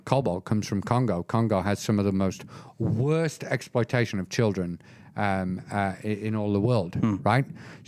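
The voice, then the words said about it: British accent. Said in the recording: “I might have a British accent”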